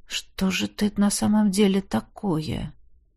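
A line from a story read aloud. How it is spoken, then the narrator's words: Mutter. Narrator (Russian): Пробормотал я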